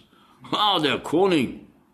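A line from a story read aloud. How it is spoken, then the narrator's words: Slightly too loud call. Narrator (German): rief der eine Spur zu laut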